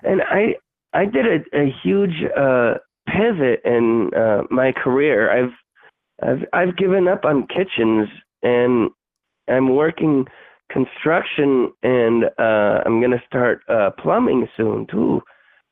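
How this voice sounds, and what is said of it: Scratchy voice from illness. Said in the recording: “I got sick. You could probably hear it in my voice. It's kind of scratchy and sounds a little bit different”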